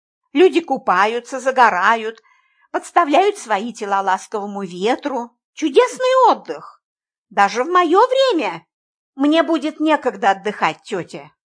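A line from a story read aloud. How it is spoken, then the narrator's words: Soft objection. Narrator (Russian): мягко возразила я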